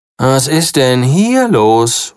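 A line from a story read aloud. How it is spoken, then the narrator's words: Aghast call. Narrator (German): ruft er entgeistert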